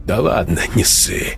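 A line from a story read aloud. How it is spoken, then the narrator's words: Dismissive snort. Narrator (Russian): хмыкнул Сергей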